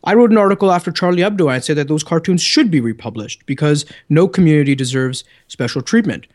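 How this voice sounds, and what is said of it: Canadian English accent. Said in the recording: “my good Canadian accent”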